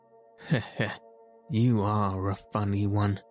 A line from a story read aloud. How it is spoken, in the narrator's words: chuckled the inspector